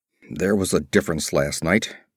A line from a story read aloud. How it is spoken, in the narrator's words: growled Conan